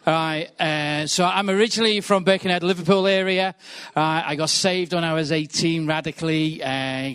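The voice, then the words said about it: Liverpool area English accent. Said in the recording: “I think the accent might give it away”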